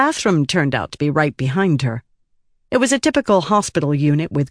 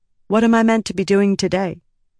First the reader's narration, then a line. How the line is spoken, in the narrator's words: Rita asked